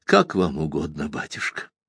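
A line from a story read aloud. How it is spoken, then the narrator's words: Quiet, strained reply. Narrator (Russian): тихо, будто через силу, ответил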